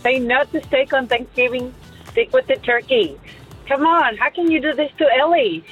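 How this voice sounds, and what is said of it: Non-American accent. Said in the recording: “you can even hear by my accent that I'm not even American”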